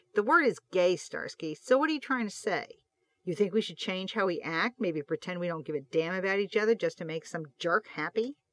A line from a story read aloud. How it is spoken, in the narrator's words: said sarcastically